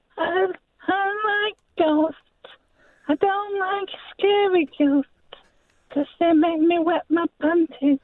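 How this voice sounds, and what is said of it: Imitates a young boy's voice. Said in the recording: “impersonate a 12-year-old boy ... impersonate a child? ... I thought that was quite accurate.”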